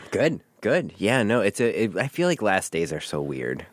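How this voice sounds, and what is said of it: Slightly congested voice from cold. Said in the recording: “I have a little bit of a cold.”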